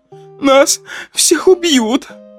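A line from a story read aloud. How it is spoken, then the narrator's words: Tearful wailing woman. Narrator (Russian): сквозь слезы причитала блондинка, одна из женщин в шубе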